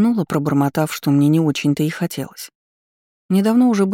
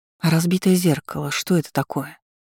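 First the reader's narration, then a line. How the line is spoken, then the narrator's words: Hoarse question. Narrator (Russian): Охрипшим голосом спросила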